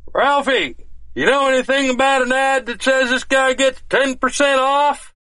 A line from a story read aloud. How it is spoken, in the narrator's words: MB shouts across the store